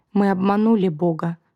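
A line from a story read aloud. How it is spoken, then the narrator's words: Low sad voice. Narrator (Russian): сказала низким печальным голосом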